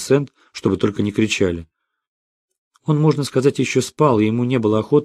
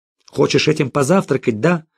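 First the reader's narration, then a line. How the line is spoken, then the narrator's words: Sharp question. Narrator (Russian): резко спросил Жером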